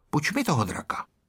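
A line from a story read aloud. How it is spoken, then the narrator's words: Said quietly. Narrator (Czech): pihovatý Ferda a řekl tiše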